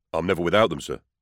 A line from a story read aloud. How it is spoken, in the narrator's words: he said